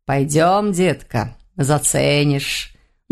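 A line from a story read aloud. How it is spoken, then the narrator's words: Purring. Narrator (Russian): мурлыкнул он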